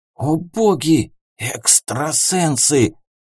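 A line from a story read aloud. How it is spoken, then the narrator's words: Whisper from crowd. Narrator (Russian): Чей-то шепот из толпы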